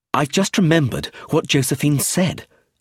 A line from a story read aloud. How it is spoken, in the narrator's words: exclaimed